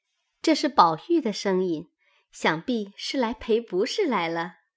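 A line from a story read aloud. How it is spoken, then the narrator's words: Laughing. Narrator (Chinese): 紫娟笑道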